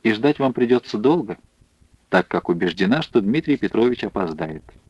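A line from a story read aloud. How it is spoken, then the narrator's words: Quiet smirking. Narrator (Russian): усмехнувшись, негромко добавила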